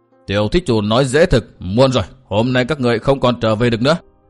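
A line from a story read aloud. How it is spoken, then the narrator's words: Stern, sudden shouted question. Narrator (Vietnamese): Xích Phát Tôn giả đột nhiên sầm nét mặt lại quát hỏi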